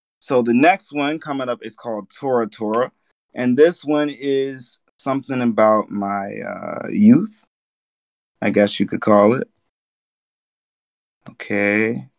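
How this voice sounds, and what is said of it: Rough, worn-out hoarse voice. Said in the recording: “my voice is a little bit shot to pieces”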